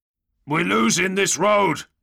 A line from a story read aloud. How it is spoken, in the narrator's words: Bastilan grunts, his signal marred by the sound of weapons crashing against his armor